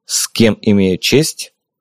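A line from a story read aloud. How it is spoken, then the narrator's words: Cold inquiry. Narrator (Russian): холодно поинтересовался я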